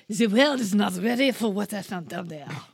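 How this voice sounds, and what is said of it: Mock French accent. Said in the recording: “I wish I would have done the quote in a French accent. ... Sorry, French listeners.”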